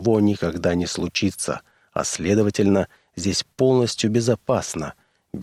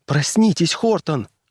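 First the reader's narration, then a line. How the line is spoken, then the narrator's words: Frightened voice. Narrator (Russian): голос Кэти звучал испуганно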